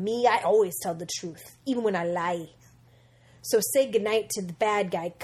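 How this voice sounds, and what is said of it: Very bad impression of a character. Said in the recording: “The worst impression I've ever heard in my life.”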